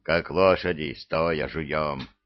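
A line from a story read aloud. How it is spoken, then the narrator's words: Grumbling mutter. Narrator (Russian): пробурчал Демидов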